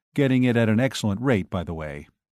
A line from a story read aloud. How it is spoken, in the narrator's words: He added dryly